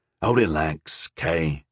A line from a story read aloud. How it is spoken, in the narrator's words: whispered back